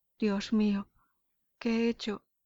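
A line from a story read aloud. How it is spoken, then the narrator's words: Moving, emotional exclamation. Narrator (Spanish): exclamó con voz conmovedora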